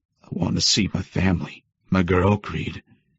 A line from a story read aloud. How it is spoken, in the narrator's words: he groaned, gargling over the blood coming out of his mouth